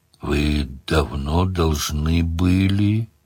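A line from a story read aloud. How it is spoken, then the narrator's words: Drawling. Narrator (Russian): протянул демон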